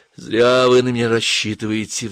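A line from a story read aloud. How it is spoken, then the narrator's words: Sighing. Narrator (Russian): вздохнула Инга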